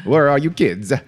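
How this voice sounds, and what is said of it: Bad put-on Italian accent. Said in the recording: “I don't do a Polish accent, so I did a bad Italian one.”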